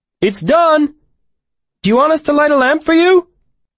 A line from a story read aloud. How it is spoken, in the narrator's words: From off in the direction of the trees, Fren called out